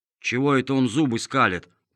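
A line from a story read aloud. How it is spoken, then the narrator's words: Grumbling, male. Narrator (Russian): проворчал мастер Виноградинка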